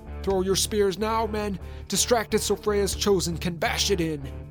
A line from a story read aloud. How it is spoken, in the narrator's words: yelled